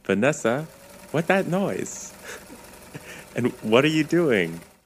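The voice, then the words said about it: Impression of the character Milo. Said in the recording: “that was a really good Milo impression”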